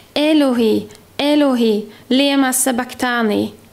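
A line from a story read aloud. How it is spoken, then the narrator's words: Loud cry. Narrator (Swedish): ropade Jesus med hög röst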